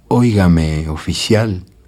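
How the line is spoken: Weak whisper. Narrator (Spanish): no tenía fuerza para hablar, pero susurraba

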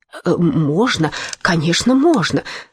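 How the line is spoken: Stammering in chorus. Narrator (Russian): заикаясь, хором заговорили Штурм и Дранг

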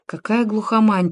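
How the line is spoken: Muttering. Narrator (Russian): пробормотал Сережа Ветров

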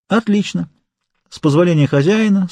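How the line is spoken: Calm speech. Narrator (Russian): спокойно сказал канцель

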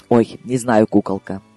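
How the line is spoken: Sighing, woman. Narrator (Russian): вздохнула она

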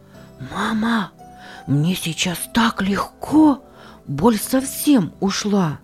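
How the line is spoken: Whisper. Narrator (Russian): прошептал он

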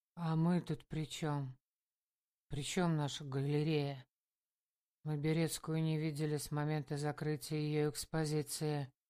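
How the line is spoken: Dull murky tone. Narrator (Russian): мутным тоном сказал Миша

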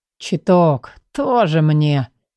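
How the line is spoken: Hostile mutter. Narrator (Russian): С неприязнью буркнул Шарон

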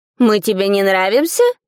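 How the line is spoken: Irritated question. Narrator (Russian): раздраженно спросил большой морской паук

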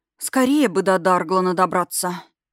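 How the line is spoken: Heavy sigh. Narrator (Russian): тяжело вздохнула Версалика

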